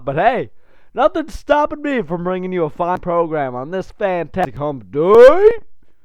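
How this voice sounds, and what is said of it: Congested, stuffed-up voice. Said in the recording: “I've got a little cold or something going on here. That's why I'm a little coughed and stuffed up.”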